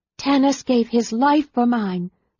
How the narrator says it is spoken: Lorana cried in a choked voice

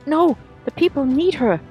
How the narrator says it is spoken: Anna shouted

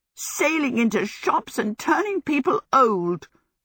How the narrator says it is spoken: exclaimed

